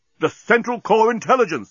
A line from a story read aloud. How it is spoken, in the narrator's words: exclaimed Bolfas